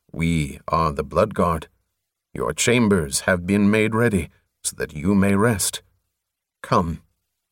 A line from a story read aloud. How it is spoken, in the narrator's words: Flatly, Korik responded